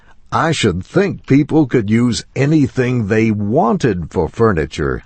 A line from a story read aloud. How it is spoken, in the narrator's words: I said, somewhat sharply